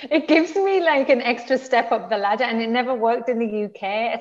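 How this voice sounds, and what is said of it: Northern English accent. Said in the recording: “I'm from the north of England ... refine your accent ... I'm never going to refine my accent ... every time I speak, people go, oh my God, say that again ... it's just so soothing”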